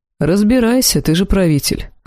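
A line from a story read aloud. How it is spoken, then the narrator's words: Snorting, wry. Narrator (Russian): хмыкнул Элохар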